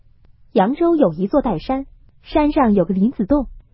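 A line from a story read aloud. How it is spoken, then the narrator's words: Suppressing laughter, offhand. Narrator (Chinese): 宝玉便忍着笑顺口周道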